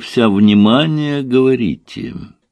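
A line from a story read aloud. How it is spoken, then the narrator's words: Purring. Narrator (Russian): Ирина промурлыкала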